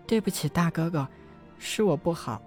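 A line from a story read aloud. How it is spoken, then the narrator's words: Quiet, head lowered. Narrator (Chinese): 陈曦低着头，小声的道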